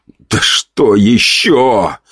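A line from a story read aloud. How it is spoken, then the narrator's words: Groaning. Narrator (Russian): простонал я мысленно, ну или немысленно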